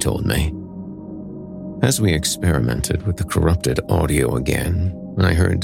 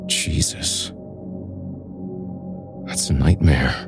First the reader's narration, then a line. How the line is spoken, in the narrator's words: whispered nervously